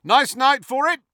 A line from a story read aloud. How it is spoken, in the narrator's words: Fred shouted, as the castle quaked again